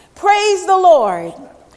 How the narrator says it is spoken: The little old lady shouts

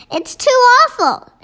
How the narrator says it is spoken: Sophie cried

